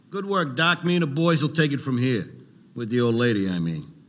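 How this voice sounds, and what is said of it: Scarface cartoon gangster voice. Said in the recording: “he's basically doing the Scarface voice.”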